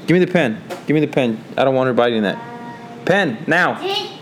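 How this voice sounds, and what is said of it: Stern parental dad voice. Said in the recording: “you heard dad voice right there. That was the, my dad voice.”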